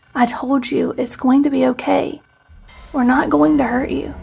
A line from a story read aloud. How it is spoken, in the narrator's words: whispered softly as his features relaxed